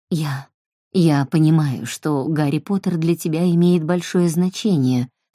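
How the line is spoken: Plain. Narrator (Russian): сказала она

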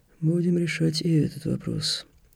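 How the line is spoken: Sighing, prefect. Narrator (Russian): вздохнул префект

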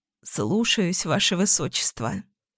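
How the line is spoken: Hoarse, then coughing. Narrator (Russian): Сипло добавила ткачиха и закашлялась

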